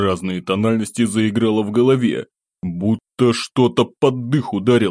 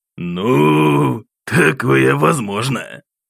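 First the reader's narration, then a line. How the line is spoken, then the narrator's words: Man chuckling over phone. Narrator (Russian): Хохотнул мужчина в трубку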